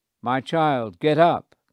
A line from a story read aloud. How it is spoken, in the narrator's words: Jesus said loudly